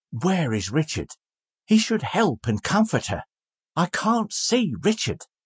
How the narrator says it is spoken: Trotty only murmured more and more

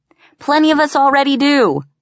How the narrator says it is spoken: someone shouted back

